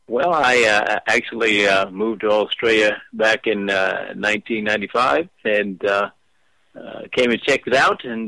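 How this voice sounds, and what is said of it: Unique Australian accent. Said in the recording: “you have a very unique Australian accent.”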